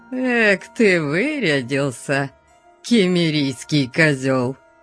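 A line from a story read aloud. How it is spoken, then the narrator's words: Sneering drawl. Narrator (Russian): Протянул он, растягивая губы в гнусную ухмылку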